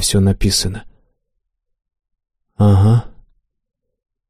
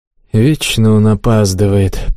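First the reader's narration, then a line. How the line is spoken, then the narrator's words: Grumble. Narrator (Russian): проворчал Тимир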